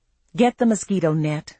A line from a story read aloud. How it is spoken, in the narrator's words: I said wearily